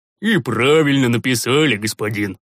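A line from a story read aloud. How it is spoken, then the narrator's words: Convinced booming voice. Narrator (Russian): убежденно прогудел Рикар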